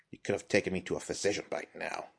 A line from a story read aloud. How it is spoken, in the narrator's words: grumbled